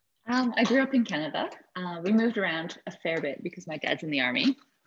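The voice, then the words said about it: Non-Tasmanian accent. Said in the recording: “you don't sound very Tasmanian. Your accent's not so Tasmanian.”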